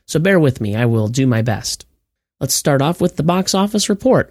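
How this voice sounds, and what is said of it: Froggy, slightly strange voice. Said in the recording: “I sound a little froggy or my voice sounds a little stranger than normal. I'm just getting over a cold and my throat is still giving me a little bit of trouble.”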